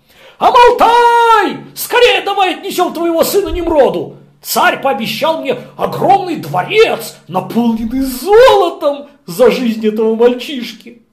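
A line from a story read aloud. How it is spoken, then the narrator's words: Shouted. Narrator (Russian): Терах, он закричал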